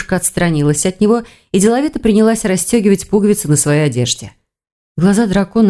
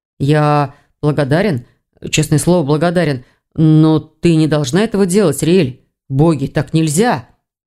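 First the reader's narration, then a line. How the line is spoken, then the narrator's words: Hoarse mutter. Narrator (Russian): Охрипшим голосом пробормотал Ивар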